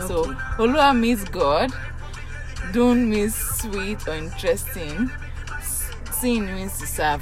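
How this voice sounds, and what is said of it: Yoruba Nigerian English accent. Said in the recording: “Of course, I'm Yoruba. I did say that. Even my accent should have said it.”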